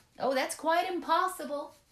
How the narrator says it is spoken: she called out as she went along

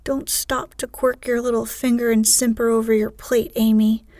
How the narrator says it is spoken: cried Joe, choking on her tea

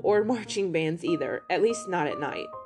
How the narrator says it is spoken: chuckled Michael

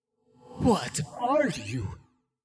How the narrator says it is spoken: It rasped

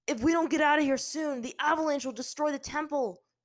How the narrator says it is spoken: Zuko yelled to his sister over the roaring winds

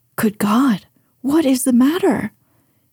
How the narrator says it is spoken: he cried, with more feeling than politeness

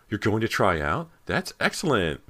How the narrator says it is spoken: Meg exclaimed

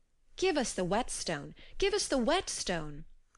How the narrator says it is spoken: cried the other thralls

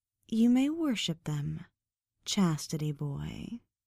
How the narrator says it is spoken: Wendy said in a mocking, sultry voice

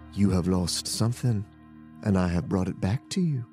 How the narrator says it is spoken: in a smooth and primal voice said

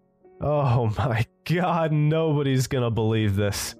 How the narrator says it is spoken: I started giggling to myself, and that giggling gave way to belly laughs before I coughed out

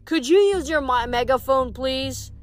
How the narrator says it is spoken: Coach Hedge grunted like he was pleased to have an excuse

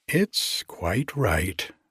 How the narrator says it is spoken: she said calmly

